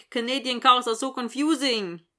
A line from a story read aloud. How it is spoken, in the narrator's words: Dylan says in a bad Swedish accent